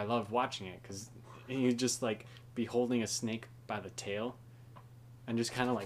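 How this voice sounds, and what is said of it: Usual voice. Nothing is said of it.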